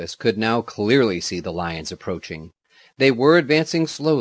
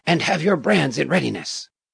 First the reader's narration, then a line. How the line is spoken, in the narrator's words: the general whispered